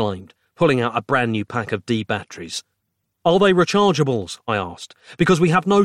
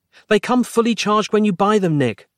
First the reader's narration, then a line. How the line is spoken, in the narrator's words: she cried